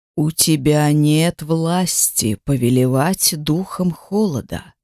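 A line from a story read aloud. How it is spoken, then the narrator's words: Hissed reply. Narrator (Russian): прошипел в ответ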